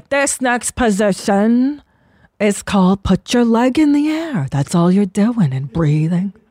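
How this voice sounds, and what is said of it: Imitating a yoga teacher's weird accent. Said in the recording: “He had this weird accent.”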